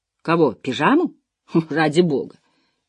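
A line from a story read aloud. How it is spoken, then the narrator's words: Hissing. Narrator (Russian): прошипел Джем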